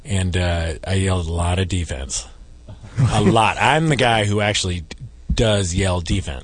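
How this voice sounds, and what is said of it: Hoarse, worn-out voice. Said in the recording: “I've lost my voice. At the Clippers game last night.”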